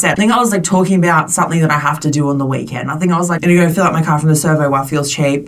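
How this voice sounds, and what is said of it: Thick Australian accent. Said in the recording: “Your accent is so thick”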